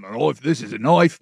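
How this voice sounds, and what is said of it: Bad Australian accent, Crocodile Dundee impression. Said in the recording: “my terrible Aussie accent ... We're talking like this ... that reminds you of Crocodile Dundee, because, of course, if I'm doing an Australian accent”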